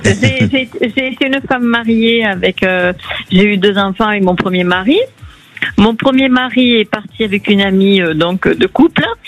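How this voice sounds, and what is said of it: Slight Marseille southern French accent. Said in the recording (French): “Un petit accent de Marseille.”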